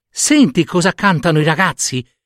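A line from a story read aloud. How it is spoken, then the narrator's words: Young storks exclaiming. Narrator (Italian): esclamarono i giovani cicognini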